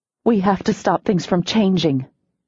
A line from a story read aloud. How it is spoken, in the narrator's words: I said urgently